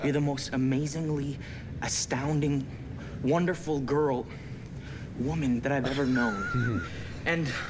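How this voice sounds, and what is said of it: Shifting American, Australian, English accent. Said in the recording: “Cameron Ling's accent ... He started American, then he was Australian, and then he was a bit English, and then he was Australian again ... That's called the transatlantic accent”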